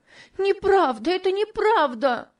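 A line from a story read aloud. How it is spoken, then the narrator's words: Shouting while loudly sobbing. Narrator (Russian): кричала Топси, громко рыдая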